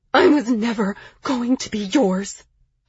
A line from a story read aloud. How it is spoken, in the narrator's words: I whispered back